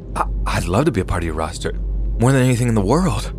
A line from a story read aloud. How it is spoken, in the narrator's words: I responded in an excited tone